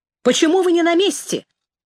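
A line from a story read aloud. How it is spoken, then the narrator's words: Shouting through megaphone. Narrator (Russian): закричал им с холма через рупор мегафон Расщепей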